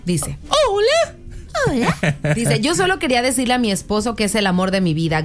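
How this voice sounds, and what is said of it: Man doing thin female voice. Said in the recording (Spanish): “con voz de mujer ... hazla delgadita, no muy gruesa”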